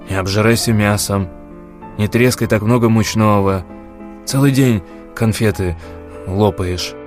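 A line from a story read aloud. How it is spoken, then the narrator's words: Grumbling. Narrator (Russian): Саранин ворчал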